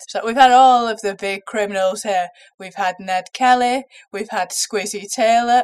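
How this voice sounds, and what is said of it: Slightly congested voice. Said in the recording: “I've got a bit of a cold”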